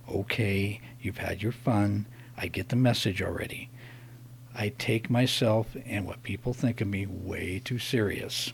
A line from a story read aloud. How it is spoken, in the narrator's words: I gritted my teeth, and under my breath I said